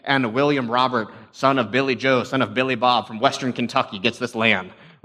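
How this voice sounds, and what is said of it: Thick put-on Southern accent. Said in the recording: “I get like a real thick southern accent in my head”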